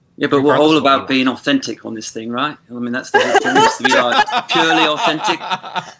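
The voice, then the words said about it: Convincing put-on British accent. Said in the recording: “You sound British to me. I don't have a skilled ear, so I would buy it. ... you do the accent perfectly.”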